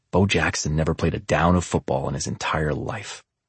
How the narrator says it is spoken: he said in a hushed, serious tone

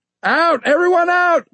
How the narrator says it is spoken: Maury shouted

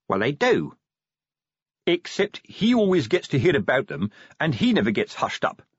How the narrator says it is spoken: said Fred

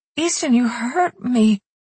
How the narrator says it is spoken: she murmured in a broken voice

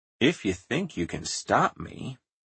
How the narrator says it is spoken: Edison said softly

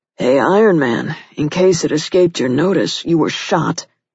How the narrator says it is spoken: his partner said gruffly

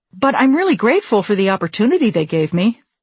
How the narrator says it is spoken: added quickly

